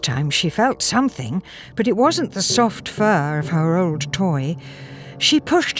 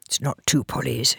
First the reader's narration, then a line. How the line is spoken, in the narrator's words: he muttered to himself